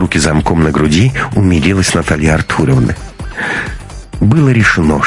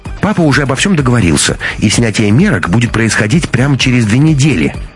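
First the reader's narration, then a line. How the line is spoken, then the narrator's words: Delighted exclamation. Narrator (Russian): приплясывая от восторга, воскликнула Анна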